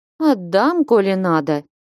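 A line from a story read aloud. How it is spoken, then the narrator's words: Lazy. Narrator (Russian): лениво промолвила Параша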